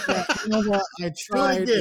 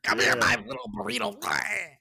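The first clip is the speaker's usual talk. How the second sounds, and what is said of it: Poor Donald Duck cartoon voice. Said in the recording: “worst Donald Duck impression”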